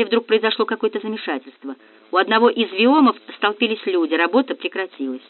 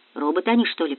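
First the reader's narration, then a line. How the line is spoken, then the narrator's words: Muttering. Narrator (Russian): пробормотал кто-то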